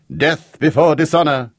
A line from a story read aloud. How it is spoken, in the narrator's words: cried Aldo Belli, the Madeira warming his ardour